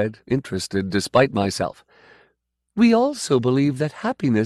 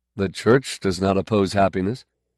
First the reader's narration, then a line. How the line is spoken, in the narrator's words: I said dryly